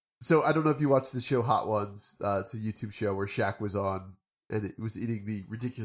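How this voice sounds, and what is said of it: Usual voice. Nothing is said of it.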